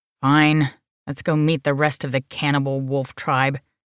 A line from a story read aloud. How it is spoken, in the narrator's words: she grumbled